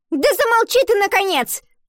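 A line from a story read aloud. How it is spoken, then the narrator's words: Shouted. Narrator (Russian): выкрикнула одноклассница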